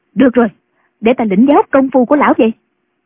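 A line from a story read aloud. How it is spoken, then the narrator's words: Impatient shout. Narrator (Vietnamese): Không nhẫn nại được nữa, bà quát lên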